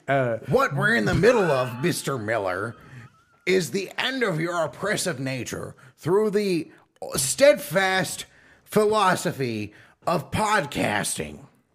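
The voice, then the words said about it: Put-on character voice. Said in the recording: “doing a lot of voices today. ... I am doing a lot of voices today.”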